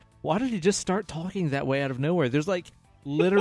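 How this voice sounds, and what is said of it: Usual voice. Nothing is said of it.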